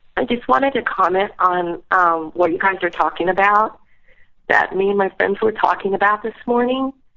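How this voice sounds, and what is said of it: Voice with a slight cold. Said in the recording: “I have a little cold”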